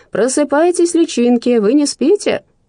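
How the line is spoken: Playful shouting. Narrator (Russian): дурачился, кричал

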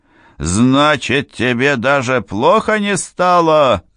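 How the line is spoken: Yelling even louder. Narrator (Russian): завопил старший администратор еще громче

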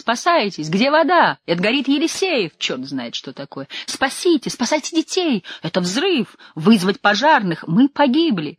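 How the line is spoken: Shrill panicked shrieking. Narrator (Russian): Весь этот гвалт покрывал визгливый голос Людмилы Сильвестровны, которая кричала уж вовсе какую-то чепуху

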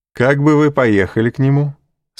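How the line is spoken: Laughing. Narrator (Russian): сказал, смеясь, Дебре

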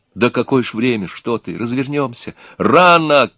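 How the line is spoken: Shouting. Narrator (Russian): крикнул Егор

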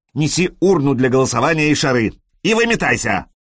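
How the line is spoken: Rough. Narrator (Russian): добавил он грубо

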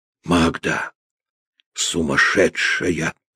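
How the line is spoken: Heated whisper. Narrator (Russian): сказал он жарким шепотом

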